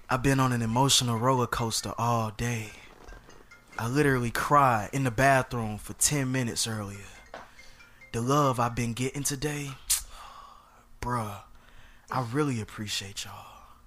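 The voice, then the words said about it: Dramatic, theatrical reading. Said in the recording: “I'm going to read it dramatically.”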